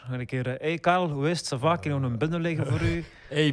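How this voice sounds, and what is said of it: Attempted Surinamese-Dutch accent. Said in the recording (Dutch): “Wat voor accent is dat zelfs? ... Surinaams-achtige poging. Surinaams-Nederlands. Poging”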